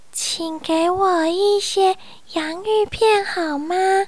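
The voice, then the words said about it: Quiet, soft-spoken line. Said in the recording (Chinese): “他小声的回答”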